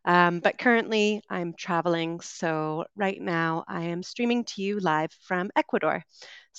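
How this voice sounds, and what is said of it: Canadian English accent. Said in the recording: “I am originally from Canada, so you'll be hearing a Canadian accent today. ... maybe sometimes a bit of the intonations”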